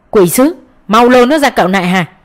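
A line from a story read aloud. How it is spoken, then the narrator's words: Thunderous shout. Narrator (Vietnamese): Diêm Vương quát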